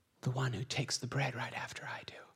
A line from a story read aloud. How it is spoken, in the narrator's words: Jesus quietly says